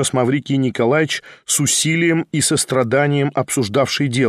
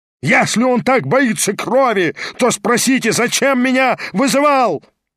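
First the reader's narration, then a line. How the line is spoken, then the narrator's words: Yelling. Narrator (Russian): вопил Гаганов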